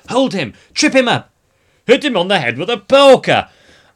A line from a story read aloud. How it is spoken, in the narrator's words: the palace echoed to the shouts of